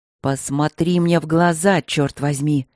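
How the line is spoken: Near growl, face-to-face. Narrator (Russian): Почти прорычала она ему в лицо

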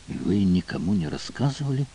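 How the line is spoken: Whisper. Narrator (Russian): прошептала

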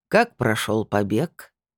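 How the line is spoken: Lazy, seductive question. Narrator (Russian): поинтересовался он лениво, растянув на губах соблазнительную улыбку

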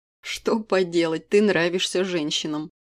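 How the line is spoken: Chuckling. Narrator (Russian): хохотнул Вадим

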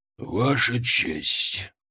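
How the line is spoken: Hoarse but firm. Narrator (Russian): Его голос был хриплым, но твердым

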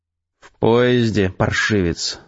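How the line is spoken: Sigh. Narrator (Russian): вздохнул Эдгар

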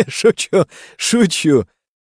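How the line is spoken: Loud laughter. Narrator (Russian): расхохотался Балашов

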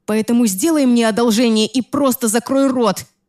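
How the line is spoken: Yelling. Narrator (Russian): заорала я на него

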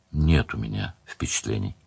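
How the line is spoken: Quiet. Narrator (Russian): сказал Леверлин тихо

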